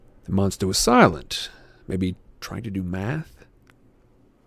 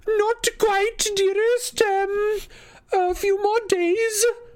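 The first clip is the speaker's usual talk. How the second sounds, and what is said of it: High falsetto voice. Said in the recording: “He called out in falsetto”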